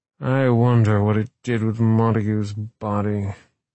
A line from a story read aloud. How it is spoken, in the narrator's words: came the slurred voice of Wright